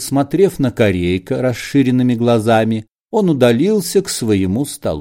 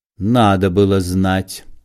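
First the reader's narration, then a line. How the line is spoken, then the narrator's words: Cold. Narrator (Russian): холодно сказал Корейка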